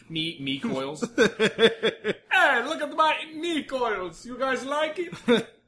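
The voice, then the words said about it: Weak put-on Serbian accent. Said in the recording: “That's the best Serbian. ... Your Serbian accent sucks. ... It's kind of bordering on Italian.”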